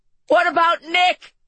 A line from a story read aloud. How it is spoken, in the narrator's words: Allie shouted